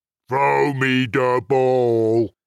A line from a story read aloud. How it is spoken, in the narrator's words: said a booming voice